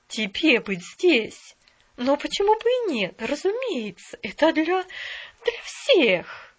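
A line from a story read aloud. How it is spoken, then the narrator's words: Young woman exclaiming. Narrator (Russian): воскликнула молодая женщина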